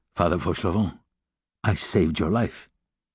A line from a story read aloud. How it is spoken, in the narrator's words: Jean Valjean said to him in a grave voice